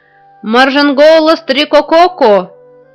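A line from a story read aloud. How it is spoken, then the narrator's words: Crowd shouting. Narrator (Russian): кричали жители планеты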